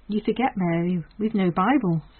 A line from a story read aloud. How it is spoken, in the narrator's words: said Molly Jones